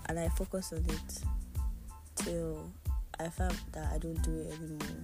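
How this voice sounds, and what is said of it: Low, subdued voice. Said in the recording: “why my voice is sounding low like this”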